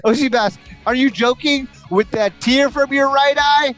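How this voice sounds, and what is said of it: Loud yelling voice. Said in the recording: “I don't know why I'm yelling. ... Do you see me holding my headphones away from my head?”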